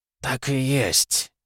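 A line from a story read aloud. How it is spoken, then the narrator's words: Quiet. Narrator (Russian): тихо отозвался он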